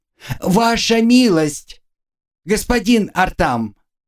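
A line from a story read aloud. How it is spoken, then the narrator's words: Prolonged calling shout. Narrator (Russian): Она кричала уже 5 минут, пытаясь докричаться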